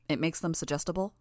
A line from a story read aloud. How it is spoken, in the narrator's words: I asked